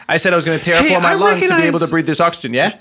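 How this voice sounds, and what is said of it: Put-on Jersey-sounding accent. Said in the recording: “I recognize that accent. ... Where are you guys from, Jersey?”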